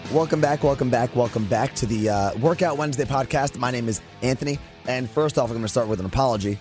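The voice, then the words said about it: Strained, fading, hoarse voice. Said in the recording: “you could probably hear by my voice, it's a little weird. I've somehow been losing my voice... the voice is coming and going a little bit, so if I sound weird”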